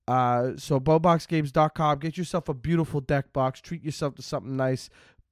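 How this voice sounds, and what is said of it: Nasal, congested voice. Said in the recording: “I get nasally, and that's what I start doing with my accent ... I'm sick”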